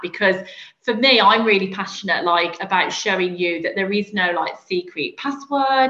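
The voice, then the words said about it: Birmingham English accent. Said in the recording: “I'm not from London, as you can probably hear from my accent. I'm from ... Birmingham”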